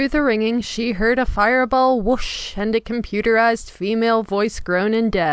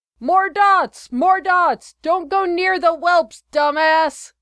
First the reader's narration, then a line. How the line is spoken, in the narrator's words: Benny screamed in her ear